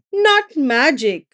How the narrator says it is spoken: she laughed

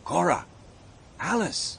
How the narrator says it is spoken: said quietly

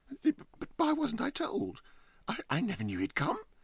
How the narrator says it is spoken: exclaimed Huddle

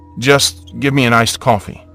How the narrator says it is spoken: I replied

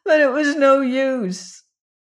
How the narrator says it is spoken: said with a sob

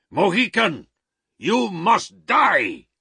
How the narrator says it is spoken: He shouted

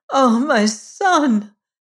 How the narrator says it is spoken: cried she

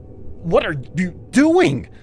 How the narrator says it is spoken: I blurted

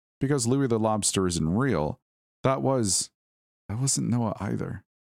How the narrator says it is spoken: said Joel

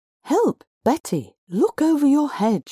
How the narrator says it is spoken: she cried

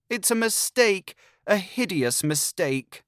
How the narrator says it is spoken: rang with a wail in my ears

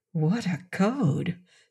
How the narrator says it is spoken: Seton whispered to Crane under his breath

